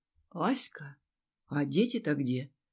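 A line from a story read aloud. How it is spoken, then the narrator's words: Quiet, indignant question. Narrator (Russian): Тихо и возмущенно спросила Жанна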